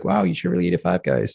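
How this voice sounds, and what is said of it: Imitates another person's voice. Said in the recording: “impersonation.”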